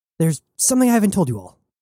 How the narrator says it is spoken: Jazz blurted

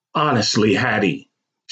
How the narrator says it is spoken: she barked with exasperation

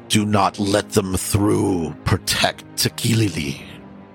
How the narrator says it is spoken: You hear a voice coming from this direction, and you hear a growling

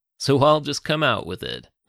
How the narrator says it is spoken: the man continued in his rich Texan accent

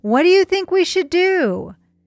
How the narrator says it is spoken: Toman's sergeant yelled out his window

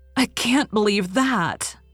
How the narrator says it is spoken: cried Anne bitterly

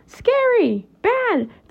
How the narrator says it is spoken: the Wiffles cried

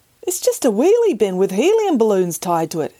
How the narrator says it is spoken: he exclaimed

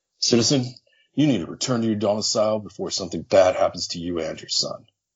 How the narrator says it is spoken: The guard snarled

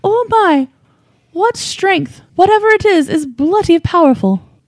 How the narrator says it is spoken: Margaret exclaimed

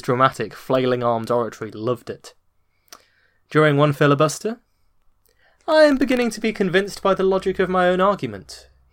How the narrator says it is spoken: he said, teasingly

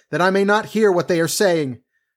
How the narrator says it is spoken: cried

